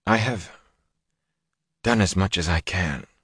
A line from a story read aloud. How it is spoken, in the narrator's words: she said faintly